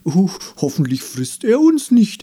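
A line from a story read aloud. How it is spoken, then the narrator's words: Mock-frightened call. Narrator (German): rief ein anderer und legte gespielt erschrocken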